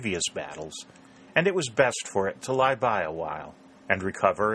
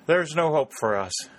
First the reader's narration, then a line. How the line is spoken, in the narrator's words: said Warner, sighing